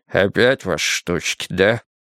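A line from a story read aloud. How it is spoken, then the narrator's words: Grumbling. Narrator (Russian): пробурчал он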